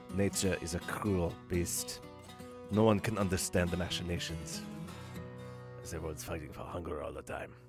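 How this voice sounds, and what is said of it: Werner Herzog impression, drifting off. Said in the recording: “that totally veered from the proper Herzog impersonation to whatever I usually do”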